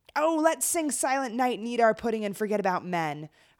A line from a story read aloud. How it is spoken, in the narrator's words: Eilonid shouted